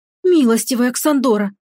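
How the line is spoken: Horrified exclamation. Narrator (Russian): воскликнула в ужасе Тавин

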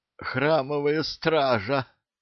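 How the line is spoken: Hoarse rasp. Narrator (Russian): прохрипел сержант

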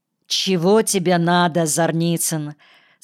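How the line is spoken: Ringing, clear voice. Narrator (Russian): спросил Паризек звонким и чистым голосом, так не шедшим к его мраморному лицу и неподвижным глазам

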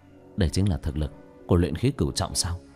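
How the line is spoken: Startled whisper. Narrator (Vietnamese): Sa Trần thì thào nói nhỏ, trong lòng giật mình

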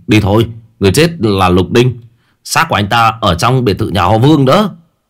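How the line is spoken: Loud. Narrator (Vietnamese): La Hổ lớn tiếng

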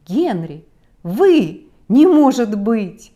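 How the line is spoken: Astonished exclamation. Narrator (Russian): окончательно пораженный, я воскликнул

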